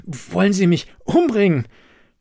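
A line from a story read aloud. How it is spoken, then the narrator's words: Gasping out. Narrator (German): brachte keuchend heraus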